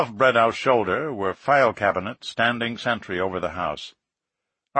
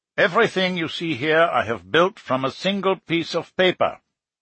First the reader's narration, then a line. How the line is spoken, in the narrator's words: Bredow exclaimed